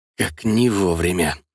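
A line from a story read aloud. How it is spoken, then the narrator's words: Hissing. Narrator (Russian): прошипел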